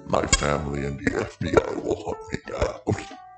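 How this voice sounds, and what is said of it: Robotic voice. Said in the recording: “why do you sound like a robot?”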